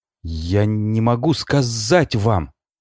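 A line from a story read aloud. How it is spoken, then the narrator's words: Stammering. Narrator (Russian): заикаясь, произнесла Элизабет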